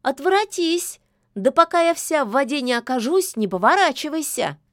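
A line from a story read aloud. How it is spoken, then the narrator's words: Shouting. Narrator (Russian): Яга тотчас крикнула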